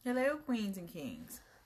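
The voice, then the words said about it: Slight put-on British accent. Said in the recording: “a little British accent”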